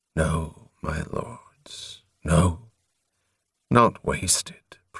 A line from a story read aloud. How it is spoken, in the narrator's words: Prothol murmured